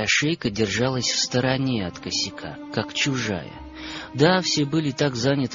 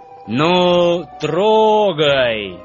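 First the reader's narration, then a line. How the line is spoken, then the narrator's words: Loud command. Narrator (Russian): Громко скомандовал главный вожак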